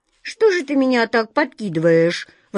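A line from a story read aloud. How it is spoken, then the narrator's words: Indignant cat's howl. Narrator (Russian): возмущенно взвыл кот Васька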